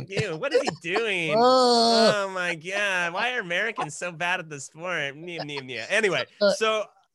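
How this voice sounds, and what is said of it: Imitates another person's voice. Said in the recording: “that voice ... I don't know where that voice comes from. I'll never tell who I'm mimicking there”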